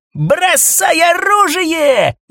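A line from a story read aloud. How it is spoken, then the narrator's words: Hysterical yell. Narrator (Russian): истерично завопил Бритый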